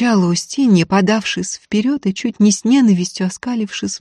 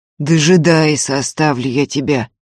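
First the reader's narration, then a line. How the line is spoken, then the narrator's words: Through gritted teeth. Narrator (Russian): процедил сквозь зубы Ефим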